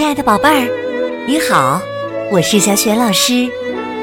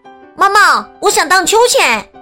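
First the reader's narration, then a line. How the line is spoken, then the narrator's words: Young girl calling. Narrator (Chinese): 大女儿汉娜喊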